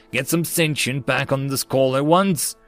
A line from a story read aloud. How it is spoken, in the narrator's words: the system highmost yelled